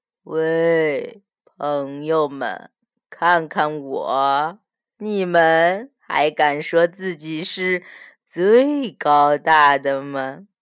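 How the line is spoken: Slow speech. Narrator (Chinese): 大金鱼 它慢慢地说

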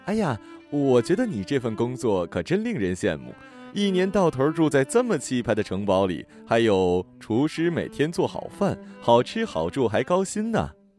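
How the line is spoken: Cheerful smiling woman. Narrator (Chinese): 印度女作家忽然露出了一脸欢喜的笑，对主任说

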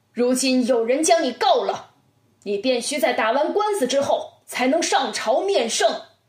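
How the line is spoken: Angry, loud. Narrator (Chinese): 包公这时也已动了心火，高声说

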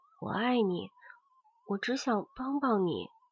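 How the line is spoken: Murmuring. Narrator (Chinese): 何佩佳 他喃喃地说

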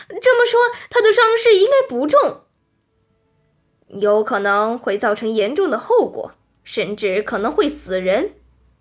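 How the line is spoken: Happy excited shout. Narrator (Chinese): 匹诺曹高兴地跳起来叫道

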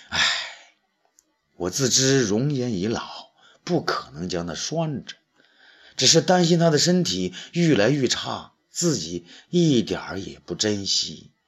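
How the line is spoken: Sighing. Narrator (Chinese): 卓卓文君叹了口气

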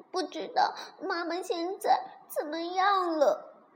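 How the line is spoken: Sobbing. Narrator (Chinese): 霸王龙接着问，抽抽搭搭哭着说

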